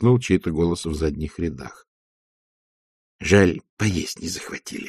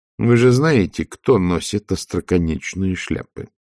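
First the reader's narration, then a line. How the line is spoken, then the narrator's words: Plain. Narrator (Russian): спросила она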